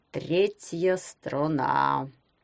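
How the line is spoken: Reluctant creaky voice. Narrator (Russian): неохотно проскрипел он

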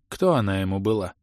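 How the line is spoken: Quiet question. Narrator (Russian): тихо спросил маг

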